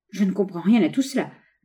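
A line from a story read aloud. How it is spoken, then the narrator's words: Woman stammering. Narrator (French): balbutia-t-elle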